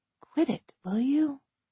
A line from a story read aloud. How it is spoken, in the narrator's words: I whispered